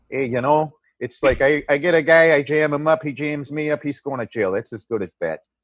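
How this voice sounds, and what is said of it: Put-on Chicago accent, tough detective voice. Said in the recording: “I'll get stuck on an accent for a day. I'm going to talk like that the rest of the day now. I'm going to be a hardcore Chicago detective.”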